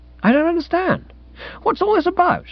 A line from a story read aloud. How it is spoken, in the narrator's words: She laughed indulgently